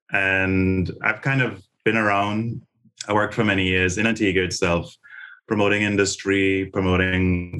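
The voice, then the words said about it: Antiguan Caribbean English accent. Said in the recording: “you have this distinctive Caribbean accent. So it's not Jamaican, it's not, you know, some of the other parts of the Caribbean ... I'm Antiguan ... That's the weird accent that you're hearing”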